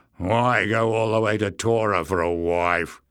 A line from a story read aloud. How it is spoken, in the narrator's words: He slurred